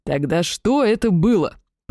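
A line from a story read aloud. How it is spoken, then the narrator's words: Growling. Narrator (Russian): прорычал Дарай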